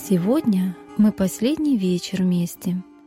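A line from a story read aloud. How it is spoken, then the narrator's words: Sad. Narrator (Russian): грустно сказала Фрося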